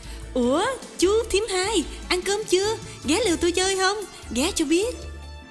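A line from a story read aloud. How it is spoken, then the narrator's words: Cheerful, overly friendly exclamation. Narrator (Vietnamese): bà vợ reo lên như thân tình lắm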